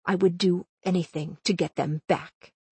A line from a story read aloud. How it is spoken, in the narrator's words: he said quietly